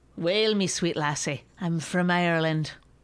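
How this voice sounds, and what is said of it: Put-on Irish accent. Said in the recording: “any, like, other country, I just do an Irish accent, no matter what”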